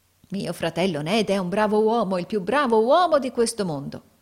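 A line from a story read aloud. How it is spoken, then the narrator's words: Exclamation. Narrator (Italian): esclamò Carlo Cheeryble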